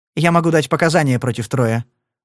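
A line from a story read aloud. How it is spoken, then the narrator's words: Angry smirk. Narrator (Russian): зло усмехнулась Бетти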